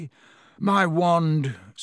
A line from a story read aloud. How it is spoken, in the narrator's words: said Ron in a shaky voice